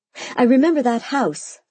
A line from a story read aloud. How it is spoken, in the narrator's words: I cried, bouncing in my seat